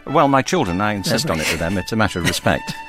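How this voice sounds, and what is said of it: British accent. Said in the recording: “as you can tell by his accent, grew up in the UK”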